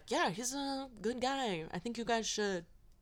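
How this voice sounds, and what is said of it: Imitates another person's voice. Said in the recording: “this is my Charlie Sheen impression.”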